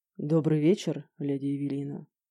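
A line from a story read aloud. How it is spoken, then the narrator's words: Velvety, chilling voice. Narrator (Russian): произнес он бархатным голосом, от которого по спине пробежал холодок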